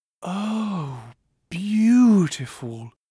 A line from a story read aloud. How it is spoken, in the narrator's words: sighed Her Grace